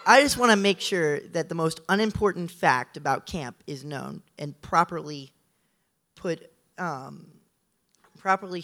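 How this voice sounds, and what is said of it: Strained, worn-out voice. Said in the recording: “sorry about my voice. It's because of Pink Team”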